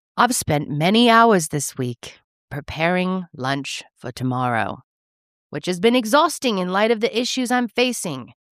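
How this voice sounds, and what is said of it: Put-on Australian accent. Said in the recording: “My Australian accent is so bad.”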